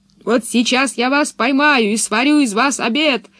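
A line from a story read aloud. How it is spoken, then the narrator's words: Monster shouting. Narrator (Russian): кричало чудовище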